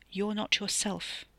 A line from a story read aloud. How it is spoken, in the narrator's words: the man said softly